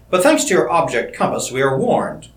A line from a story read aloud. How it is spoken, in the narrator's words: Crane continued, evenly